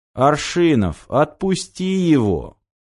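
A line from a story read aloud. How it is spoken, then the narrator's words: Slow, deliberate. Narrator (Russian): медленно проговорил Томский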